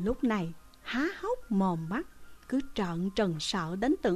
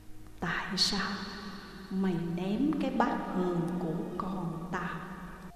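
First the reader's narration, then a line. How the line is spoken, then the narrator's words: Whisper. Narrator (Vietnamese): Bên tai tôi thì thầm giọng nói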